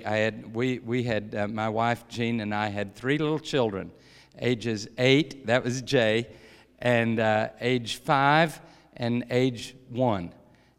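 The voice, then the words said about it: Kentucky accent. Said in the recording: “I grew up in Kentucky. That's the accent ... And hills of Kentucky”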